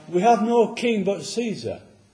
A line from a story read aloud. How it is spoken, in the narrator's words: the people cried out, the Pharisees cried out